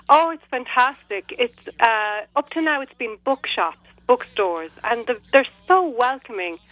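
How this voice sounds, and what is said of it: Irish accent. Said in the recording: “I love your accent so much ... it's really music to my ears to listen to an Irish accent.”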